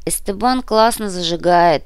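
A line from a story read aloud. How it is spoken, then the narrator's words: Sighing. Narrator (Russian): вздохнула Валя Пенкина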